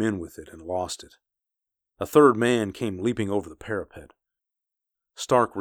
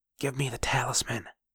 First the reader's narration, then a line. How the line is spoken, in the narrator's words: he whispered, and Stark saw that he was weeping